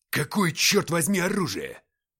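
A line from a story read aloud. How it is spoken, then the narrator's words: Barking. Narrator (Russian): рявкнул Уфимцев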